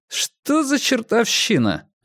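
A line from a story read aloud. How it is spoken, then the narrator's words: Irritated asking. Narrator (Russian): раздраженно поинтересовался он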